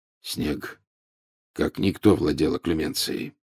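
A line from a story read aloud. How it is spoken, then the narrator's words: Unusually hoarse. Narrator (Russian): с непривычной хрипотцой в голосе произнес Люпин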